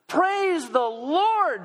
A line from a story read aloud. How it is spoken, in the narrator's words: she cried out